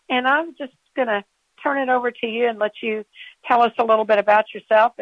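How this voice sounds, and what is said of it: Southern Kentucky accent. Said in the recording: “You got that Southern Kentucky accent.”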